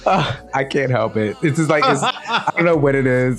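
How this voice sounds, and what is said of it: Southern American accent, drawn-out vowels. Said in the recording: “puts a whole extra syllable in the word on ... on. It's like, oh, there's a whole new syllable in there ... I'm gonna talk with a southern twang”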